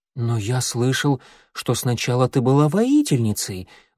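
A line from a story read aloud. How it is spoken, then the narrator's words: Timid objection. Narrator (Russian): робко возразил Огонек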